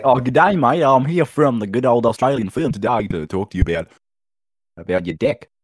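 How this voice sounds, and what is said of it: Put-on Australian accent. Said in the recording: “When you say deck in an Australian accent, it's dick.”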